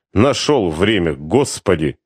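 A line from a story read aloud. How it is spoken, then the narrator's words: Through gritted teeth. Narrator (Russian): в том же тоне процедила Косташ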